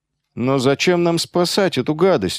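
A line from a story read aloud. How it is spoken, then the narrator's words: Glum question. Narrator (Russian): уныло спросил Яски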